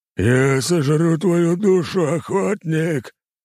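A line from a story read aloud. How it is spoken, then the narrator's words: Guttural monster roar. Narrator (Russian): заревела утробным голосом чудовище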